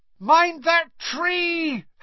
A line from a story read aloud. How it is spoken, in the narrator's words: Harry bellowed